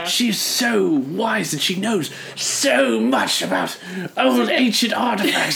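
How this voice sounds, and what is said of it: Exaggerated fancy bumbly British accent. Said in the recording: “He's trying to do a British accent ... He was doing that weird fancy man accent ... doing a really bad job ... almost offensively bumbly British”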